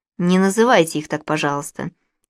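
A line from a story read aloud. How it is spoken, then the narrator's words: Calm. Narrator (Russian): спокойно сказал Джакомо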